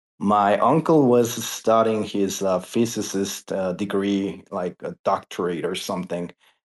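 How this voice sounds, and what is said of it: Non-native English accent. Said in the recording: “as you can notice by my accent and my fluency, didn't really work that well”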